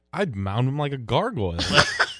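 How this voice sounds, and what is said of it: Impression of a friend's voice. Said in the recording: “can you do your best really? Carly impersonation”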